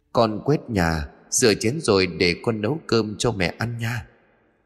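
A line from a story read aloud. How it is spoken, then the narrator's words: Eerie echoing voice. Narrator (Vietnamese): tiếng nói ở đâu đó trong căn nhà cứ vang lên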